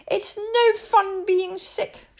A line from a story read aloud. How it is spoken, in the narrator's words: she moaned